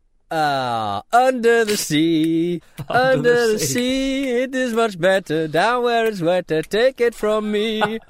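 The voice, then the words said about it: Put-on Indian accent while singing. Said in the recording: “I sort of did a bit of an Indian accent there. I didn't mean to.”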